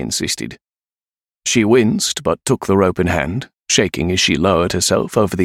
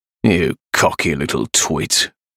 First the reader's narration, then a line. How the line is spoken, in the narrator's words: Razor growled from the hallway